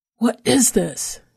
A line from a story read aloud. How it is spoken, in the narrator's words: she repeated with a snarl